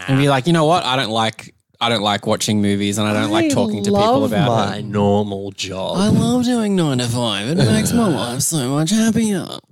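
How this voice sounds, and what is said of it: Impersonation of the other host. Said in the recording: “It was an impersonation of me.”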